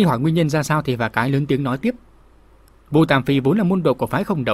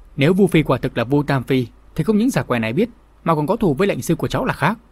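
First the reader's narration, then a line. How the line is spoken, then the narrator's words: Faint-smiling reply. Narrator (Vietnamese): Phà cái cười nhạt đáp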